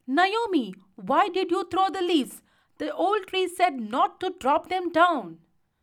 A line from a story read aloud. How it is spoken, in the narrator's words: He shouted